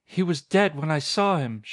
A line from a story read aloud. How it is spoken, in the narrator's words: she cried